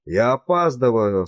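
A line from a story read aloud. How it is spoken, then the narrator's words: Hoarse, barely recognizable. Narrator (Russian): сказал он хриплым и почти неузнаваемым голосом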